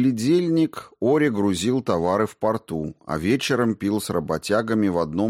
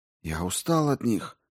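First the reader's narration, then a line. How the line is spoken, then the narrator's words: Whispered. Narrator (Russian): шептал он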